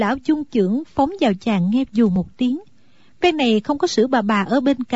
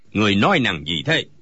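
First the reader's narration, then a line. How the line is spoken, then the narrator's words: Old man shouting. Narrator (Vietnamese): Lão liền quát lên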